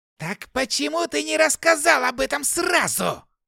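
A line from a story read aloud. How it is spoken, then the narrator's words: Yelling. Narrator (Russian): заорал он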